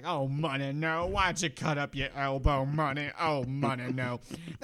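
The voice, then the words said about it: Put-on Southern American accent. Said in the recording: “talking like a southern man”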